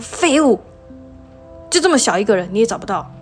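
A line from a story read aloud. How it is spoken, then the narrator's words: Shouting. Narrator (Chinese): 大喊说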